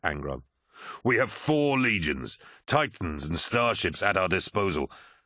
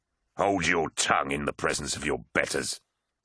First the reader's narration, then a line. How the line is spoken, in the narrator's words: snarled